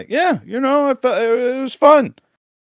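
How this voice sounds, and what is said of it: Good impression of Surgeon. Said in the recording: “That's such a good Surgeon impression.”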